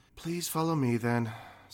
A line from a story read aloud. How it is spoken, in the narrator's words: said Colton with a slight sigh